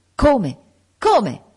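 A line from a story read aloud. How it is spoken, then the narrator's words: Exclaimed. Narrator (Italian): esclamò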